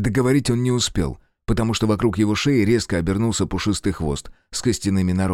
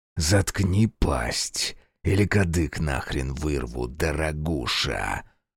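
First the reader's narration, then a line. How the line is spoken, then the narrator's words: Menacing hiss. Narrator (Russian): прошипел Фергус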